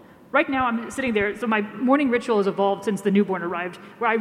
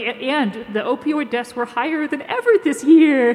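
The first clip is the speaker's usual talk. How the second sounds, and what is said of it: Baby voice. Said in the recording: “I have to do it in like a baby voice”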